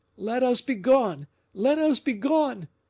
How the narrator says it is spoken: cried Fouquet

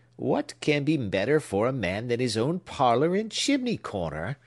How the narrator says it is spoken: asked the old gentleman rather testily

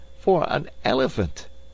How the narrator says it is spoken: cried Passepartout

